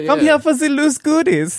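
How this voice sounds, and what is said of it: Put-on Swedish accent. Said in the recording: “Sweet Swedish accent.”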